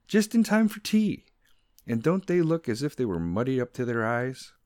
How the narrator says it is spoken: cried

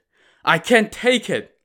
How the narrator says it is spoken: Lin Chong cried

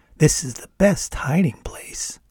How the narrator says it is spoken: Molly whispered in my ear

